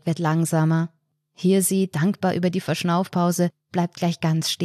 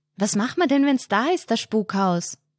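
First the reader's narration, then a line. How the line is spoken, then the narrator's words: Sudden call. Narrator (German): ruft Hirsi plötzlich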